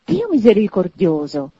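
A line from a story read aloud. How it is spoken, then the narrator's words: Choked astonished exclamation. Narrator (Italian): esclamò il signore soffocato dallo stupore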